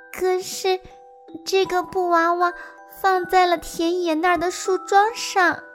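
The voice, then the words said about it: Soft, quiet child's voice. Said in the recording (Chinese): “阿布小声地说”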